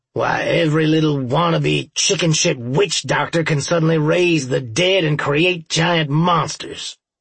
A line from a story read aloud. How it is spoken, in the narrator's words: Earl growled